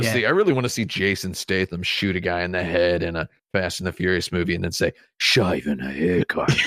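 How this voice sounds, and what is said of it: Usual voice. Nothing is said of it.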